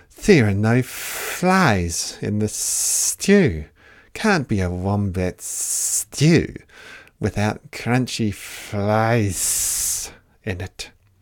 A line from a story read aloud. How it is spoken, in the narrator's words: he hissed